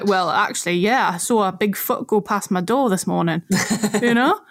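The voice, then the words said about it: Put-on strong Geordie accent. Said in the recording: “in a very Geordie accent instead of a Scottish accent.”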